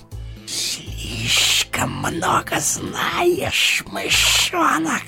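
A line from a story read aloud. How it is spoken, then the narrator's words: Hiss. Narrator (Russian): прошипел он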